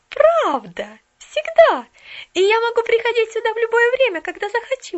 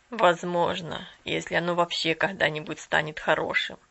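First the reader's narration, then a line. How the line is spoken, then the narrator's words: Sad reply. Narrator (Russian): печально ответил собеседник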